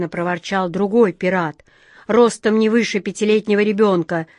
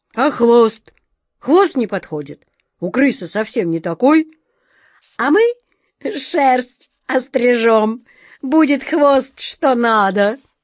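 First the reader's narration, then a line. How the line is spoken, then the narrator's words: Roaring group laughter. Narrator (Russian): захохотали пираты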